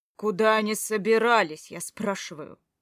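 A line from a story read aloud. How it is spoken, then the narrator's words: Barked. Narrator (Russian): гаркнул я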